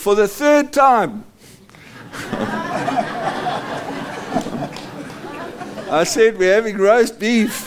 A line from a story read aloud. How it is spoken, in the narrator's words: she turns around and yells at him and says